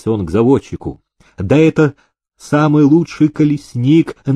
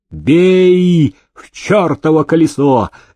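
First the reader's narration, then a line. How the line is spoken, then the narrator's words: Shouting. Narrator (Russian): закричал Демидов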